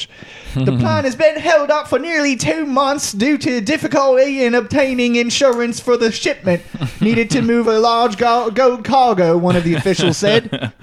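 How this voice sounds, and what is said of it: Put-on English accent. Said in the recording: “I got to speak in English ... my flawless English accent”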